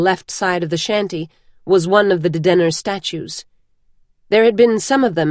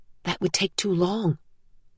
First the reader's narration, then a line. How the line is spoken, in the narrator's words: Vivenna whispered